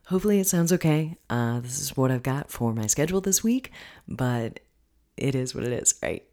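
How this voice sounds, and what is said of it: Lower, deeper morning voice. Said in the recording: “I'm recording this early in the morning, so my voice is going to be even lower than it normally is.”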